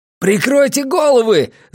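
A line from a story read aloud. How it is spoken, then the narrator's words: Yelled. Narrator (Russian): завопил Оша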